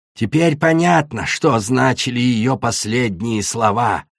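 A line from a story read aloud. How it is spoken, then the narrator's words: Hissed. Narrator (Russian): прошипела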